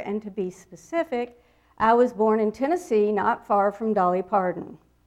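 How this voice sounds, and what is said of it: Southern US accent. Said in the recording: “from the southeastern United States. My accent, every time I open my mouth, that makes it very clear”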